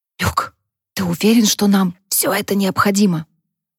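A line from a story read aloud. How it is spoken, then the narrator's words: Whisper. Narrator (Russian): прошептала Харпер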